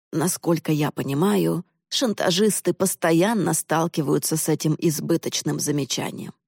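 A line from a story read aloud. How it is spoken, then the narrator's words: Plain. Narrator (Russian): ответил отец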